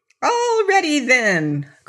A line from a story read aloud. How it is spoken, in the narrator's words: cried the orc